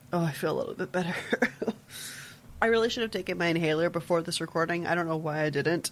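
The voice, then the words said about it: Out of breath, wheezy after coughing. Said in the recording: “asthma so much worse. I'm just out of breath all the time”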